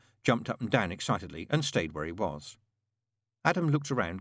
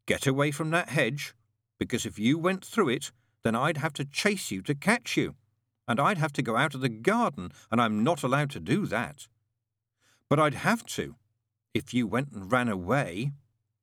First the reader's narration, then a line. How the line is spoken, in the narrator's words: said Adam sternly